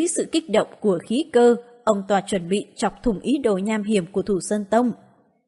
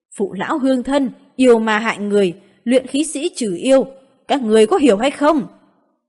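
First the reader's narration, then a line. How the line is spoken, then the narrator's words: Elder shouting to crowd. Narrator (Vietnamese): Hàn Thạch trưởng lão hét lớn với dân chúng phía dưới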